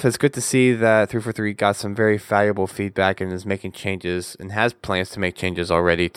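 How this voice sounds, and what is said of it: Strained, worn-out voice. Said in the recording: “I can tell my voice is probably already going by now”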